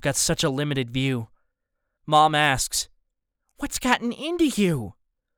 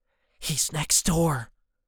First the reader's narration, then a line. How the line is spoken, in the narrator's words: whisper